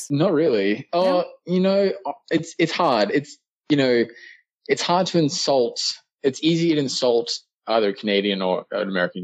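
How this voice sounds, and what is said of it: Australian accent. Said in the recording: “you still definitely sound Australian to me”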